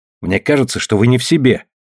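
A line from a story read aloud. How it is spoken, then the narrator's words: Snapped retort. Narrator (Russian): огрызнулась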